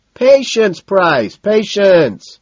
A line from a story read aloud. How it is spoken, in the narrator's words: Madison shouts